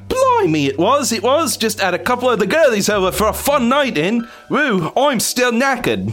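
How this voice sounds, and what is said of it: Put-on Australian-sounding accent. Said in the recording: “Sounds Australian.”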